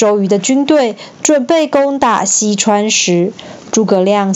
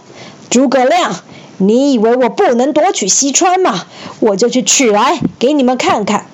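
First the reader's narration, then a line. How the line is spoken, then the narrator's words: Furious, through gritted teeth. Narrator (Chinese): 周瑜气得咬牙切齿说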